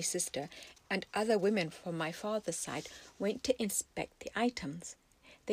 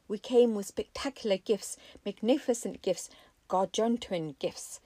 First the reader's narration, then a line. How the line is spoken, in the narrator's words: he cried to fevered applause and adulation